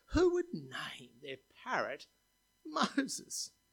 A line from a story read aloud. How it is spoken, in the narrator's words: laughed